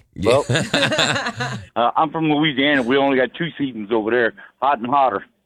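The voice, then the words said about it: Southern US accent. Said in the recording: “I hear the accent now ... they tell me I sound more and more like a hillbilly”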